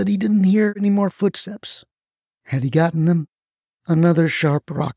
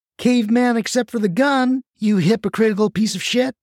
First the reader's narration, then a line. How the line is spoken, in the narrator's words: shouted Gwen